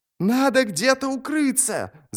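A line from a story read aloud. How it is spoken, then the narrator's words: Shrieking over howling wind. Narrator (Russian): завизжал он, едва слыша свой голос из-за ветра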